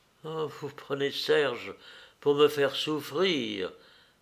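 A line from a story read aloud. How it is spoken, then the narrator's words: Stammered. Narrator (French): balbutia-t-elle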